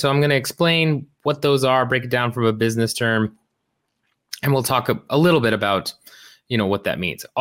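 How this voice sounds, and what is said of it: Lower, sick-sounding voice. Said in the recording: “my voice is a little bit lower. I am still sick”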